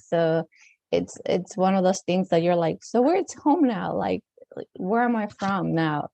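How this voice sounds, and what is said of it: Latino accent, not quite Mexican. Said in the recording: “I have like a weird accent. It's not like really Mexican accent, but it is some sort of Latino accent.”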